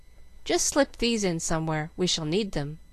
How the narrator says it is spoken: saying calmly

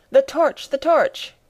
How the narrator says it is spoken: cried the professor

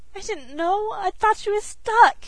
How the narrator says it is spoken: she wailed again

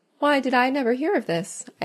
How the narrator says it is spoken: I asked

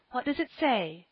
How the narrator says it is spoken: gasped Mrs

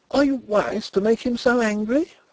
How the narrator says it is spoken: Flavia asked me in an agitated voice

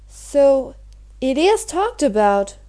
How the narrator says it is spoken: exclaimed Mary

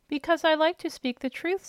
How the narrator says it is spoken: said the steward

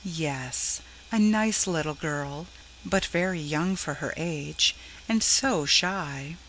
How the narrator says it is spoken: Shepherd gently

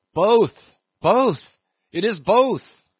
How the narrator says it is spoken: cried Daggoo again with a joyful shout

